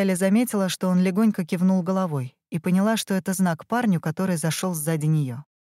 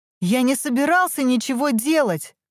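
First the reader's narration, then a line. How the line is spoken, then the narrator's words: Young man shouting. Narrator (Russian): крикнул парень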